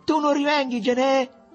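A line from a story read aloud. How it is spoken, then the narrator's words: Shouted in a small voice. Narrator (Italian): gli gridò con la sua vocetta Mariuccio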